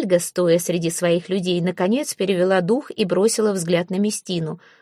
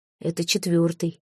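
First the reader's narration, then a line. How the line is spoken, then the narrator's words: Whispered. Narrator (Russian): шепнул Люд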